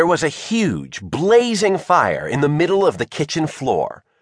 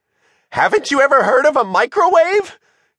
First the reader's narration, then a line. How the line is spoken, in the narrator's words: Shivers shrieked in sheer panic